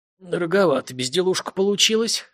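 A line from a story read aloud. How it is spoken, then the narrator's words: Smirking. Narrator (Russian): хмыкнул тот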